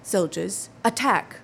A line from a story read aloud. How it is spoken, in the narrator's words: He cries out in a loud and clear voice to make himself heard in the midst of the tumult